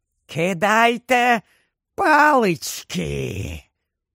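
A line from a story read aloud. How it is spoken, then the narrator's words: Hissed. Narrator (Ukrainian): прошипіла вона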